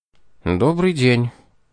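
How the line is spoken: Calm, restrained. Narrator (Russian): ответил инспектор спокойно и сдержанно

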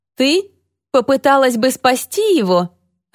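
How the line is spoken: Laughing. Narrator (Russian): рассмеялась Люси

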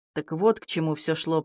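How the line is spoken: Muttered. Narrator (Russian): пробормотал Сейдж

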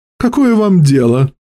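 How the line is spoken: Cheerful reply. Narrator (Russian): весело ответил сэрплас

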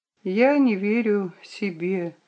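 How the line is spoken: Quiet reply. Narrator (Russian): ответила она тихо

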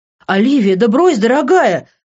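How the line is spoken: Calling after someone. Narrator (Russian): крикнул ей вслед Винсент

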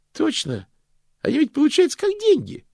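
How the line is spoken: Cheerful. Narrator (Russian): бодро подхватил Стэнли

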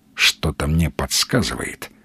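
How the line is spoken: Quiet. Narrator (Russian): негромко ответил фюрер

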